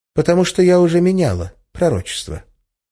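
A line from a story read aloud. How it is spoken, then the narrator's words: Completely calm reply. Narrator (Russian): совершенно спокойно ответила Арина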